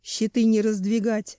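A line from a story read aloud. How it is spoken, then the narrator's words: Growl. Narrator (Russian): рычал Семен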